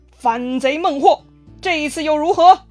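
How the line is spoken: Loud shout. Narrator (Chinese): 诸葛亮一声大喊

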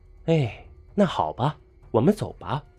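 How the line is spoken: Sighing. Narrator (Chinese): 李莎叹了一声，说道

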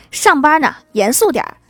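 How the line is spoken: Angry man. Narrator (Chinese): 一个男医生怒气冲冲地对护士说

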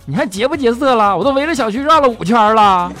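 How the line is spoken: Angry yelling. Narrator (Chinese): 佳琪就急眼了…就嚷

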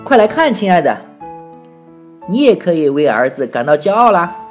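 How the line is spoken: Calling out. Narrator (Chinese): 爸爸叫道

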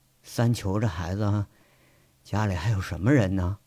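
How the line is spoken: Tearful trembling question. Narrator (Chinese): 杨伟擦了一把鼻涕和泪，颤声问了一句

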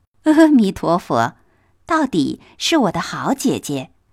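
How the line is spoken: Laughing. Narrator (Chinese): 黛玉……笑道

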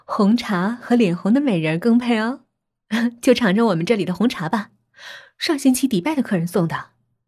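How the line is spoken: Smiling. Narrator (Chinese): 笑着说

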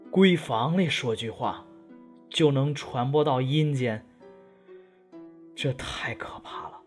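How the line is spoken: Sighing lament. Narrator (Chinese): 呼声慨叹道

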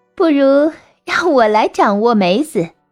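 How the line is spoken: Tipsy, laughing. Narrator (Chinese): 女郎时有酒甚，便笑着说

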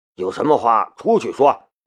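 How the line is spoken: Low soothing voice. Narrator (Chinese): 安保部长低声安抚胡梦莹

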